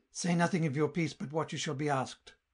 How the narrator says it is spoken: the Baroness whispered cunningly

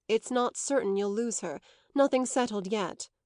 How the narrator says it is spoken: their host rejoined quickly, not as if to anticipate their tears, but in the tone of a man saying what was most agreeable to himself

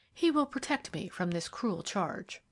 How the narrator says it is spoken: she said at last, faintly

